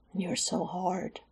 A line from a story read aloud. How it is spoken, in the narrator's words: Alex whispered in his ear, pitched for both to hear